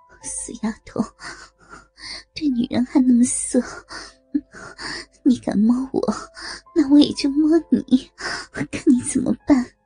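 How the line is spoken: Breathy, feigned anger. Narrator (Chinese): 杨小荣娇喘着，故作生气

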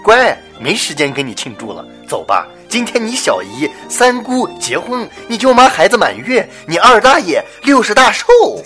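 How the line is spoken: Cheerful, smiling. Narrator (Chinese): 妈妈笑着说

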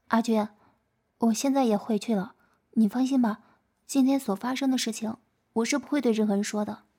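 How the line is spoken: Soft sigh, then speaking. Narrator (Chinese): 轻轻的叹了一声，然后说道

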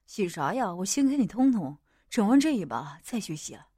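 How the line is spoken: Soft speech. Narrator (Chinese): 莫影轻声说着

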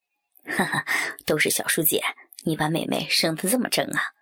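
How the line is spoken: Laughing, mocking. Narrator (Chinese): 小叔笑骂着其他男人

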